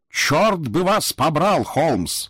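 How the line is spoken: Yelled at top of lungs. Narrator (Russian): заорал я во все горло

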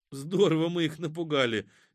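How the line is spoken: Involuntary laugh. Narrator (Russian): невольно засмеялась Катя

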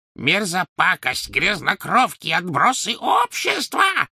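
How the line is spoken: Shrieking. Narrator (Russian): завизжала она им вслед

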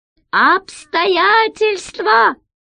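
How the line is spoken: Muffled voice from jug. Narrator (Russian): глухо донесся голос из закрытого кувшина

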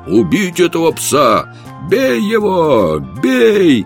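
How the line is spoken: Many voices shouting. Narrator (Russian): Тотчас же 10 голосов закричало

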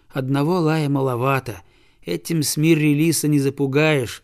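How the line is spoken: Boy sighing. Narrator (Russian): вздохнул мальчик

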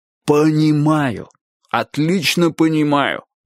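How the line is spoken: Exclaimed. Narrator (Russian): воскликнул Клопауций

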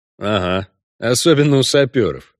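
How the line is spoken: Snorting remark. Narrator (Russian): хмыкнул Геральт

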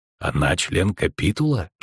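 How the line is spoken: Witcher's whisper. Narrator (Russian): шепнул ведьмак

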